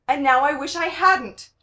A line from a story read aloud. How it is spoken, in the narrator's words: Gerard yelled